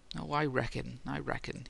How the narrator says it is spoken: he mumbled

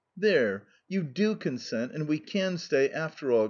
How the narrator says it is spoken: exclaimed Sonetchka, jumping for joy

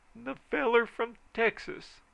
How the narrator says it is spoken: said Middleton bitterly

